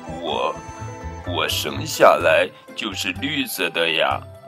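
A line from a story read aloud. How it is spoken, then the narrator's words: Shy and quiet. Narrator (Chinese): 哈瓦尔不好意思的低声说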